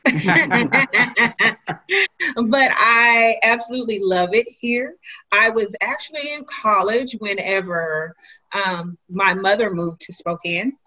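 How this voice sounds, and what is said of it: Southern American accent. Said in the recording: “you can probably tell by this Southern accent... I still haven't lost my Southern charm”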